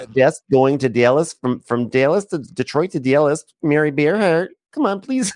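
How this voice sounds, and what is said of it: Exaggerated Michigan accent. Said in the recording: “She has developed like a Michigan accent ... That's what Alexis is talking like now”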